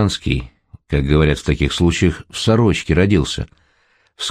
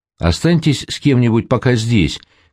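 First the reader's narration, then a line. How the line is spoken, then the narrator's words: Shout. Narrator (Russian): крикнул Саша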